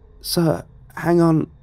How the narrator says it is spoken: I said hesitantly

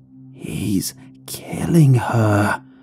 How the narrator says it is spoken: the voice whispered harshly

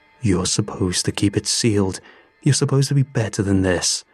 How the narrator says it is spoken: he snarled

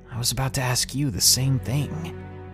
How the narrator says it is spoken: Slightly confused, I whispered right back in the same tone

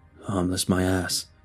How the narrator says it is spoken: he grumbled

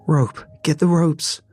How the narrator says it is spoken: shouted, already on her knees

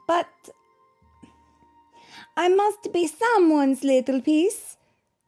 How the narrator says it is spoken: Pezzettino cried out

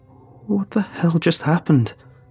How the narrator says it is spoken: gasped, already shaking at the first signs of shock

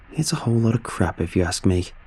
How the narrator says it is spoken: he muttered

